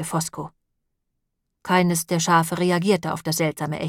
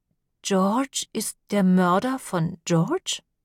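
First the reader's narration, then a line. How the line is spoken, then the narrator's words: Slow careful question. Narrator (German): fragte Sora sehr langsam und vorsichtig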